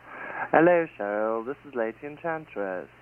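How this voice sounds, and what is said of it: Fake British accent. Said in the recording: “Why are you trying to sound British? I know you aren't British”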